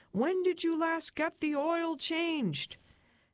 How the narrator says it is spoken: Chuck screamed

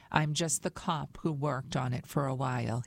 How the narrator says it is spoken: he says

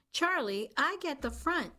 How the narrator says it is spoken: she yelled

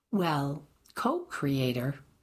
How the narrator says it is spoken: she replied

